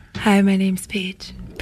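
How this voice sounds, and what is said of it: Polished radio announcer voice. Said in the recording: “She did a radio voice. See the radio voice? ... That's not how she sounded at all when she introduced herself.”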